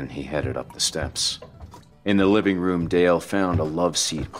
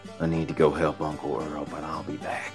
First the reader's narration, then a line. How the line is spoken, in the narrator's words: he whispered